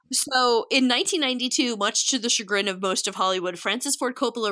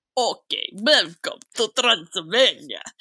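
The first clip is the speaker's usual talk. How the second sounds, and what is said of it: Put-on Transylvanian accent. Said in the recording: “That's my accent.”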